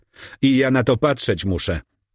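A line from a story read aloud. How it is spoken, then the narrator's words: Girl exclaiming. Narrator (Polish): wykrzyknęła dziewczyna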